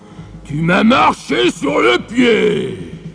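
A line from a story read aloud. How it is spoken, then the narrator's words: Giant's roar. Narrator (French): rugit le géant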